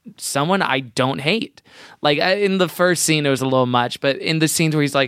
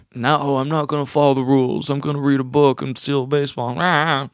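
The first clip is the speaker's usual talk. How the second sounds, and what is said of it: Impression of a TV character. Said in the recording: “Was that a good impression? ... It was.”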